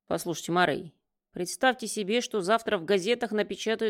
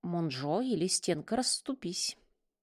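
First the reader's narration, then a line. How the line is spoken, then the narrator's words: Whisper. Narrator (Russian): прошептал Рувейр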